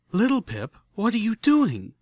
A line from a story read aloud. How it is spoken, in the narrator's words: Velvet Remedy nearly shrieked